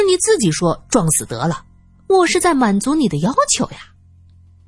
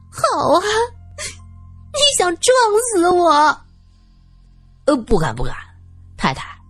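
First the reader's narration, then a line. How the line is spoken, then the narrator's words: Wailing. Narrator (Chinese): 他哭号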